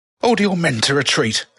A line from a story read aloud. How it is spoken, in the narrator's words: Alice shouted in her best tough macho voice